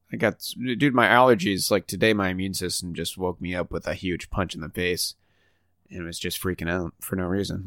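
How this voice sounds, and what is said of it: Stuffy, congested voice. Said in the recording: “apologize for my voice. I feel like it's jarring. ... I'm still stuffy as McStuffins.”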